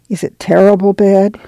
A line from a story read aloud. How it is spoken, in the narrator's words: she asked a little timidly